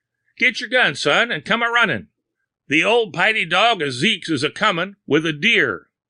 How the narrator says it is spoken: Calvin Rhodes heard and shouted to Little Tom in the next field

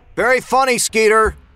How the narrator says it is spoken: Kyle yelled into the night

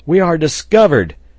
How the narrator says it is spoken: exclaimed Pencroft

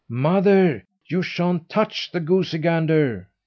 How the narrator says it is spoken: cried the boy

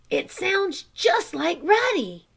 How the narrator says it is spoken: Chot exclaimed

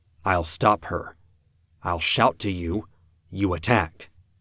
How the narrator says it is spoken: I whispered

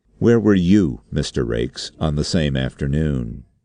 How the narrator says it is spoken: The chairman said, quite sharply and suddenly

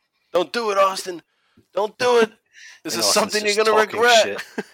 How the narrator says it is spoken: Triple H is screaming

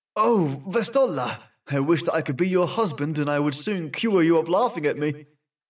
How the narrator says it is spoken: exclaimed

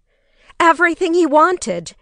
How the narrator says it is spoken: she cried

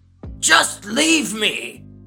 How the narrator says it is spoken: She yells

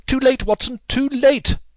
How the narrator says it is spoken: cried Holmes, as I ran panting to his side

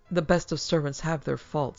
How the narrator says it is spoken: he said coldly

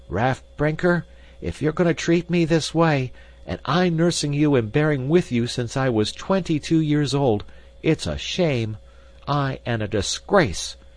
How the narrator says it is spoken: cried the Fro, growing quite red and scant of breath

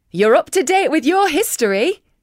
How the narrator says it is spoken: chuckled the tour guide

